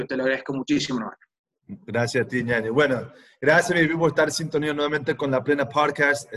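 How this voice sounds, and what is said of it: Guayaquil Ecuadorian Spanish accent. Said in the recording (Spanish): “el Guayaco con acento”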